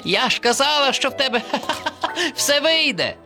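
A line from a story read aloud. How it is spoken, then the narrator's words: Turtle laughing. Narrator (Ukrainian): засміялася черепашка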